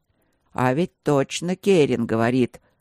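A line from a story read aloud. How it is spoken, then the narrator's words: Hesitant interjection. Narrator (Russian): неуверенно вмешался еще один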